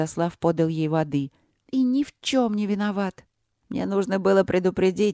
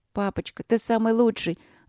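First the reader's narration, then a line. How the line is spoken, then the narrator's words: Eager, hurried, then coughing. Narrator (Russian): заверила его младший Рудлок горячо и торопливо, и чуть не подавилась рыбой, закашлялась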